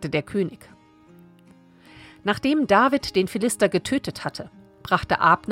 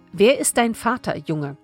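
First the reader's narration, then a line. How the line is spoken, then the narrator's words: Plain question. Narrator (German): fragte Saul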